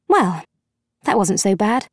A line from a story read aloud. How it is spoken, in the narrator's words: Charlie murmured cheerfully